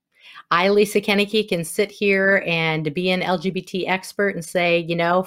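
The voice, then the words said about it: Wisconsin accent. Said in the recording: “my Wisconsin accent that I'm telling you right now”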